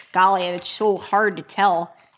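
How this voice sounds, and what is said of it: Exaggerated put-on Midwestern accent. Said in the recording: “Wildly offensive Midwestern accent.”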